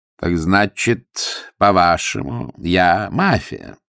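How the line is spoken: Slow. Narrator (Russian): медленно начал Сильвио

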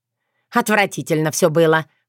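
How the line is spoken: Angry grumbling. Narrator (Russian): бухтела Антонина Александровна, сердито

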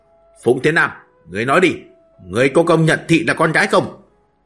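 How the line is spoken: Loud shouted question. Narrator (Vietnamese): Lão lớn tiếng quát hỏi

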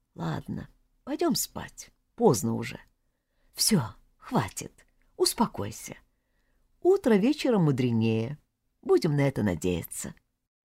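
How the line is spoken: Quiet and tender. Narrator (Russian): Паша проговорил тихо и ласково

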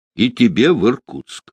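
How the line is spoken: Stern. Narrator (Russian): строго сказал офицер

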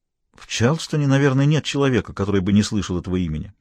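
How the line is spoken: Calm reply. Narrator (Russian): ответила она спокойно

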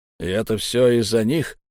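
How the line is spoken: Hoarse question. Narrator (Russian): сипло спросил человек

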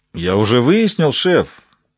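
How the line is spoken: Pleased voice. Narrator (Russian): довольным голосом ответил Поттинг

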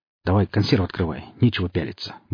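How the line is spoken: Muttered. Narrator (Russian): буркнул сталкер

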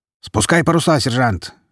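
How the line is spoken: Navigator barking. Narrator (Russian): рявкнул штурман

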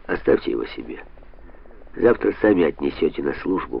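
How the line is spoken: Grumbled. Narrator (Russian): пробурчал он

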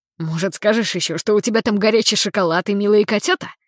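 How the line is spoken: Snorting. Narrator (Russian): Фыркнул я

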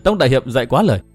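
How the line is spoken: Smiling. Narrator (Vietnamese): Đinh Phượng mỉm cười

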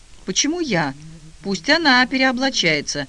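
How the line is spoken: Exclaimed. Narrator (Russian): воскликнула Капустняк

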